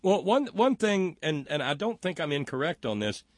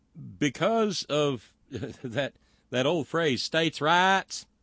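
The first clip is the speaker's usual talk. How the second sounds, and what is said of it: Put-on Southern accent. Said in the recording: “you have to say it with a southern accent ... I love how you say that ... You do good”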